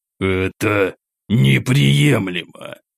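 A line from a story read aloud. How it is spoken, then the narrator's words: Through gritted teeth. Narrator (Russian): Сквозь зубы процедил император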